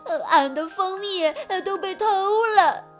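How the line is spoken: Sobbing. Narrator (Chinese): 熊二抽抽搭搭地回答道

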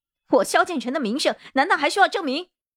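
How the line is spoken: Angry. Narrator (Chinese): 萧建成的脸顿时赤红，怒道

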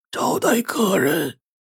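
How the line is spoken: Hoarse, eerie voice. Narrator (Chinese): 一道嘶哑的声音从棺材中飘出来

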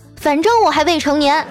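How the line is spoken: Little girl, loud. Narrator (Chinese): 小女孩大声的说

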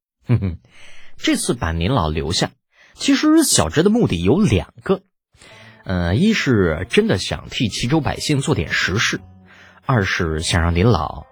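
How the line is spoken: Playful, cheeky. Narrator (Chinese): 李浩再没有了之前的正气凛然，嬉皮笑脸的说道

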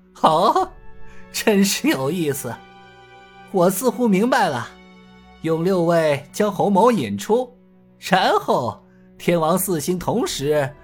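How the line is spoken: Chuckling. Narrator (Chinese): 洪金宝呵呵笑道

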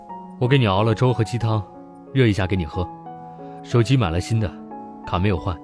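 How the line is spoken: Cool, detached voice. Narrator (Chinese): 声音清冷

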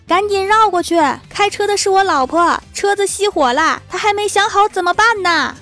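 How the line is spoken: Man shouting loudly. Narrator (Chinese): 一个男人 大声对我们喊

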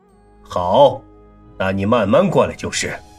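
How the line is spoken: Low voice. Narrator (Chinese): 楚留臣 低声道

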